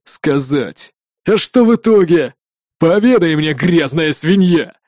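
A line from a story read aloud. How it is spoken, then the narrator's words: Growled in a rough voice. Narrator (Russian): прорычал грубый голос того парня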